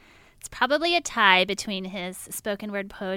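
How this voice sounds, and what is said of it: Usual voice. Nothing is said of it.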